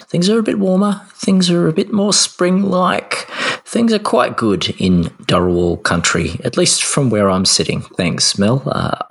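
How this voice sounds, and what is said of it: Slightly hoarse, fading voice. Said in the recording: “I'm a little sick, mind you. I'm losing my voice a tad.”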